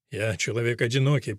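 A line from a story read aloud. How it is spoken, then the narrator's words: Mumbling. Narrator (Russian): пробормотал Невис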